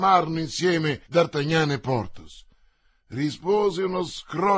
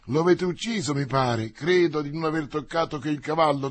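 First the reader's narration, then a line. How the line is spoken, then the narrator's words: Plain. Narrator (Italian): disse Porthos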